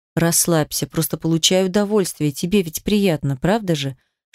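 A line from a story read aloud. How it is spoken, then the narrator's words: Whispered into ear. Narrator (Russian): шептал он мне на ухо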